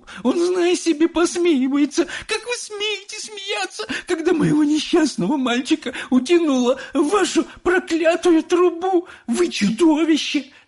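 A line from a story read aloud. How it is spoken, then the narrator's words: Shrieking. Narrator (Russian): визжала она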